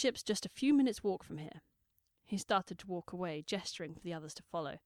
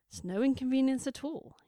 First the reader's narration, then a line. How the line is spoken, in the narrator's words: he said cheerfully